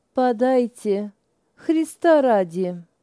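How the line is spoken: Ingratiating voice. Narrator (Russian): вкрадчивым голосом произнесла

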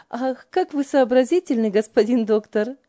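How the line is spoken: Hearty laughter. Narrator (Russian): От души смеялась Ева над братом

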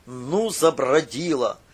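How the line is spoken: Father muttering. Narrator (Russian): пробурчал отец

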